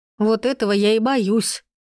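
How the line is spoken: Sighing. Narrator (Russian): вздохнула

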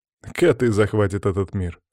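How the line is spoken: Snorting chuckle. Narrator (Russian): хмыкнул Степан

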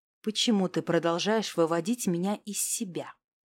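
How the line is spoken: Deceptively calm question. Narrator (Russian): спросил он обманчиво спокойно

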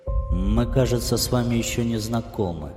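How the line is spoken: Hesitant speech. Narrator (Russian): неуверенно заговорил Власов

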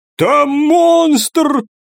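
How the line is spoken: Shouting. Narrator (Russian): крикнул один из мужчин

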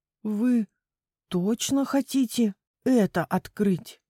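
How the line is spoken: Trembling voice. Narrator (Russian): дрожащим голосом спросил Люк

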